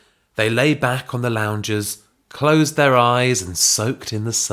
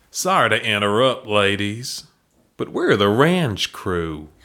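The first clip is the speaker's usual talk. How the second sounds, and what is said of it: Deep husky put-on Texan accent. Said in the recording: “a deep, husky, but not unattractive Texan voice ... How's ... going to do on this accent?”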